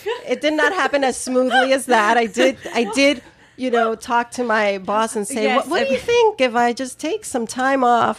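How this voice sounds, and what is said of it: New York accent, extra nasal voice. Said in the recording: “a hint of a British accent ... that's New York, and that's this cold that's making me extra nasally”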